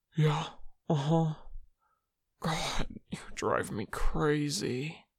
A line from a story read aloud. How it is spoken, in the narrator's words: Mingyu groaned